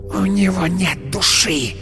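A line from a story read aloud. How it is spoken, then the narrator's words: Hissing. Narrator (Russian): прошипела она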